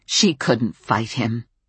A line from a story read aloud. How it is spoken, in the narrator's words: Ariana's voice changed, and she snapped